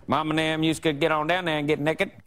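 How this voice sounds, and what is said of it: Put-on Southern American accent. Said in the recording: “a better Southern American accent than Lee ... it doesn't need to be a good Southern accent”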